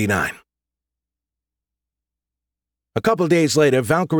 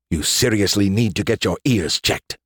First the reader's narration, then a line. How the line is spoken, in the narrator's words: grumbled